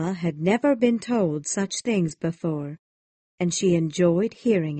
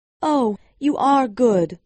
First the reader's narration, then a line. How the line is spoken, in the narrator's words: she said, as she cried